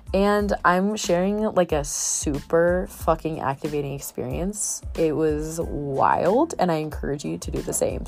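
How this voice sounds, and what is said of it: Sick, nasal and throaty voice. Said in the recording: “if I sound a little sick, it's because I am. So I'm a little nasally, a little throaty”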